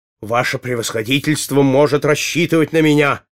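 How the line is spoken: Devoted exclamation. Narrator (Russian): воскликнул кучер

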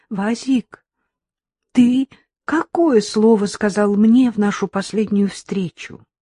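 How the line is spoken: High, trembling nervous voice. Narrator (Russian): Разом вспотевшая Лилька спросила высоким дрожащим голосом

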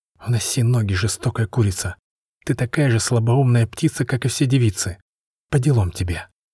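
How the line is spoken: Barely audible boy. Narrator (Russian): мальчишка лет 12 едва слышно произнес

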